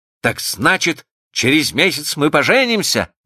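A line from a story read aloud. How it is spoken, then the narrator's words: Joyful question. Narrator (Russian): радостно спросил он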